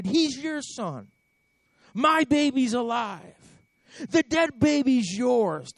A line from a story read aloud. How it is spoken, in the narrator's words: the first woman yelled